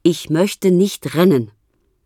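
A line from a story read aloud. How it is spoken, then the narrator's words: Loud. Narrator (German): Laut sagt er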